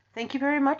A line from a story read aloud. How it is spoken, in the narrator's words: said Mr